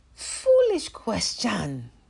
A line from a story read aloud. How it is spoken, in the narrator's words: the door snapped